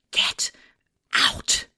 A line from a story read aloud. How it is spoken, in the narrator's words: I whispered